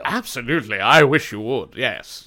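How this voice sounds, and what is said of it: Rich man character voice. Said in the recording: “I did a voice... You did a great voice... It was my rich guy voice.”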